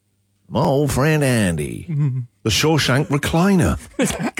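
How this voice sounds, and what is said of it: Put-on accent. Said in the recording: “Gold for the accent.”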